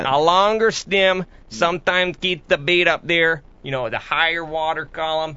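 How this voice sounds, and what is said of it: Upper Midwest accent like Al Linder. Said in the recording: “I know you're somewhere Canadian border and you go back and forth, but it's very much Al Linderish. You have a Linder accent.”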